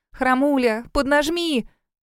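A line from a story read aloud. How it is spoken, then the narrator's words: Shouting. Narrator (Russian): выкрикнула Кэсси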